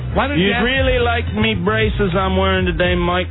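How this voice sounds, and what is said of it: British accent drifting into Southern. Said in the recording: “Your British accent is really bothering me ... it's not a British accent. It goes between a British accent and, like, a southern accent.”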